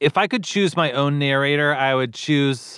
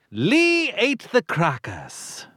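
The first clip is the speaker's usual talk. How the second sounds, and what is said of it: Put-on British narrator accent. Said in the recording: “someone with a great accent ... a British accent is always the perfect voice for it”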